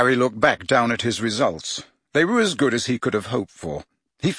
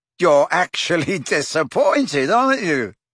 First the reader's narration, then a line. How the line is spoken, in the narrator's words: Harry laughed